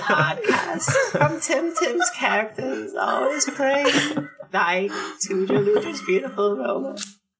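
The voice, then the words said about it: Salad Fingers character voice. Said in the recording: “has to read this in his salad fingers voice.”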